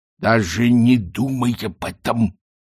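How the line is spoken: Menacing hiss. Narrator (Russian): с угрозой прошипел Ринсвинд

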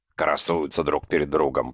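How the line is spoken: Grumbled. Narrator (Russian): проворчал Листратов

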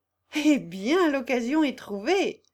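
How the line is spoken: Laughing exclamation. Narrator (French): s'écria Consuelo en riant

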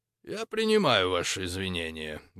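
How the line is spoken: Indifferent tone. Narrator (Russian): безразличным тоном ответил Фалько

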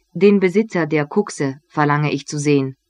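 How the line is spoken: Plain. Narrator (German): sagte der Amtmann

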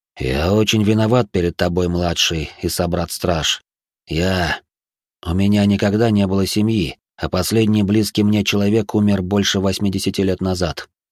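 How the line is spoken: Muffled. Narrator (Russian): Глухо сказал

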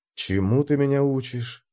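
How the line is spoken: Mumble. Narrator (Russian): пробормотал я

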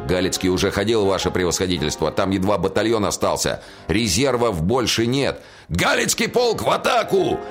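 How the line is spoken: Barked order. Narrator (Russian): рявкнул генерал

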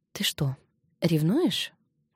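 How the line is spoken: Whispered question. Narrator (Russian): шепотом спросила Кари

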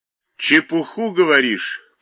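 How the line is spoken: Deep bass voice. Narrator (Russian): пробасил старшина

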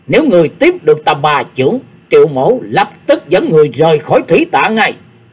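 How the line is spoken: Furious old man's yell. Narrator (Vietnamese): Triệu Kiến Hoài tức giận đến mặt mày tái xanh, lão la lớn

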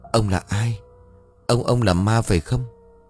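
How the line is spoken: Stammering. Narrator (Vietnamese): Nó liền lắp bắp

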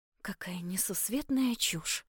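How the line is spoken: Mutter. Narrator (Russian): пробормотала я

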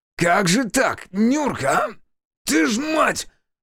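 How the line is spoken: Growling. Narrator (Russian): рычал Демьян

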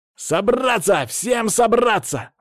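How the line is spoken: Shouting to calm crowd. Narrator (Russian): закричал Даня, пытаясь унять одноклассников

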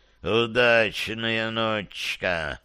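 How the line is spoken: Ghostly hiss. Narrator (Russian): прошипел король-призрак

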